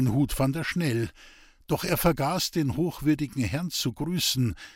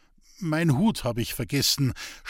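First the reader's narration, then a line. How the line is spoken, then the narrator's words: Stuttering, strange voice. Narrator (German): stotterte Roman mit einer Stimme, die einem anderen zu gehören schien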